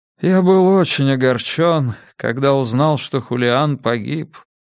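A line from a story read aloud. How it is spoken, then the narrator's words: Dejected, sinking voice. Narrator (Russian): сказал отец Фернандо упавшим голосом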